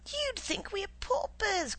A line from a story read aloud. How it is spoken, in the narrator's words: cried his wife